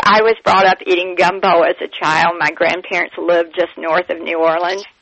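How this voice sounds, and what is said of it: Southern American accent. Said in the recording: “Do I detect some Southern in your accent? ... Yes, you do, absolutely.”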